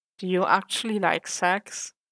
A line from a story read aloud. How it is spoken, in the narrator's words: Foggy asked hesitantly